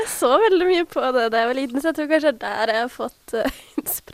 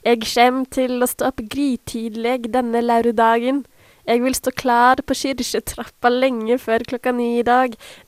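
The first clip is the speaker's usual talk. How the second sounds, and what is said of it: Clumsy put-on Norwegian dialect. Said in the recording (Norwegian): “er så dårlig på dialekt. men Jeg skal prøve ... var det en dialekt? Det hørtes egentlig ut som en av de dyrene i den der flukten fra dyreskogen fra barne-TV”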